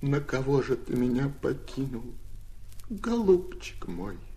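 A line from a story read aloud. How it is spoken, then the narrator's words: Sobbing widow's lament. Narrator (Russian): рыдала она, похоронив мужа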